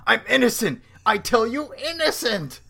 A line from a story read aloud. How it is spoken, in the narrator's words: the gorilla's shouting